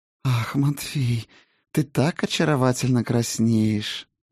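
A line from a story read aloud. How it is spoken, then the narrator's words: Purring woman. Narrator (Russian): промурлыкала царица теней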